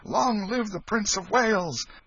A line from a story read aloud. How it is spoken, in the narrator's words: cheer and shout